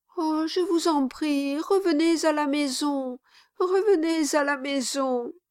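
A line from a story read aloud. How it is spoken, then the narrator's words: Sobbing. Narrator (French): dit Mistress Quilp avec des sanglots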